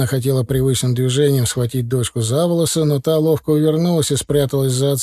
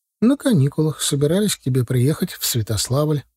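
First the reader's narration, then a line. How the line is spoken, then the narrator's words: Calm reply. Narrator (Russian): также спокойно ответила Диана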